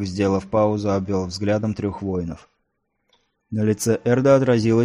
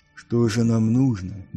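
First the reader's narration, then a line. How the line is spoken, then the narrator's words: Soft question. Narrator (Russian): мягко спросил Нил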